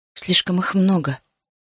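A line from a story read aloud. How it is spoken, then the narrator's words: Mumbling. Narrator (Russian): пробормотала Сиобан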